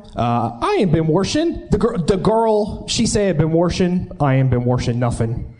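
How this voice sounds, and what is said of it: Pittsburgh Yinzer accent. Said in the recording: “Yinzer accent ... It's really good.”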